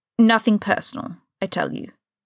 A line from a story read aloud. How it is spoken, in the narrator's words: Severus says flatly